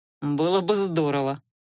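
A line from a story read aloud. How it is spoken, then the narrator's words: Amused snort. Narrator (Russian): хмыкнул Адар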